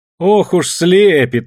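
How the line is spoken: Mocking, from a crowd. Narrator (Russian): насмешливо отозвалась из толпы Таня

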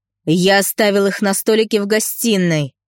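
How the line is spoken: Growl. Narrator (Russian): зарычал мужик

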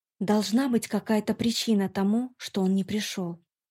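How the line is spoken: Very quiet. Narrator (Russian): совсем тихо добавила

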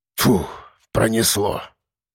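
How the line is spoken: Relieved exhale. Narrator (Russian): выдохнул Кулебякин

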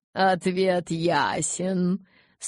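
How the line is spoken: Laughing. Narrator (Russian): смеясь подвел итог Ара

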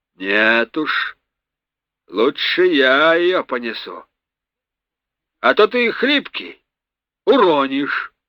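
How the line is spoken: Resolute, menacing. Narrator (Russian): решительно и грозно произнес боцман

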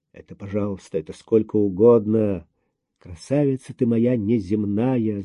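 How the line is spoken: Mutter. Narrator (Russian): забормотал Андрей

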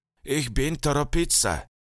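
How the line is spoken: Wheezing, breathless old man. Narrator (Russian): тяжело дыша просипел старик

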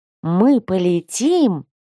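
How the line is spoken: Excited breathless young student. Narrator (Russian): восторженно выдохнул один из первокурсников

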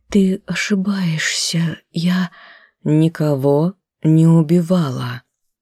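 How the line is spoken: Sad tearful whisper. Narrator (Russian): грустно покачала головой, опустила мокрое от слез лицо, прошептала

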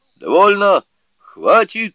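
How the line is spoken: Furious roar. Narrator (Russian): в бешенстве заорал дух меча

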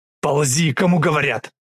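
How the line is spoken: Growled. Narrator (Russian): Зарычал Хасан

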